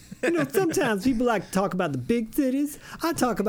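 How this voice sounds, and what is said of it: Usual voice. Nothing is said of it.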